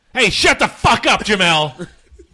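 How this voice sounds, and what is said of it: Angry shouty imitation, faint Boston accent. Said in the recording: “good Bill Burr impression? ... That was actually pretty good. ... That was pretty good. ... more anger than it is Boston.”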